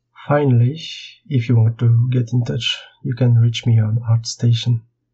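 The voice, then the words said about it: Strong French accent. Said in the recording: “my horrible French accent”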